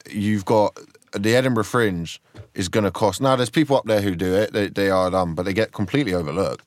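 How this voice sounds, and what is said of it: British accent heard as working-class. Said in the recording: “I'm seen as working class because my dad's Mark Steele and I've got an accent.”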